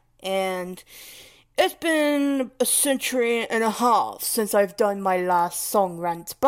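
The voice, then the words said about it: Odd put-on English accent. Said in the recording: “wow, what kind of English accent was that? I have no idea”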